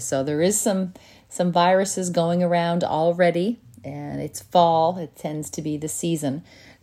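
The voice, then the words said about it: Voice affected by a cold. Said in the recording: “you can probably hear in my voice, I have a little bit of a cold symptoms ... in case anyone can hear that in my voice today”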